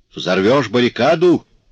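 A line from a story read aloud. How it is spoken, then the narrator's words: Shouting. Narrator (Russian): крикнул сержант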